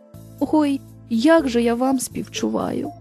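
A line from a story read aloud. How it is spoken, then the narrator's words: Kindly sigh. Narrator (Ukrainian): зітхнув добросердий лісоруб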